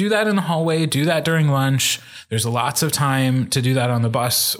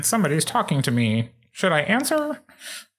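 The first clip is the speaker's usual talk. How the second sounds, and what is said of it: Nasal put-on teenager voice. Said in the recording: “your teenager voice impression ... when you go nasally”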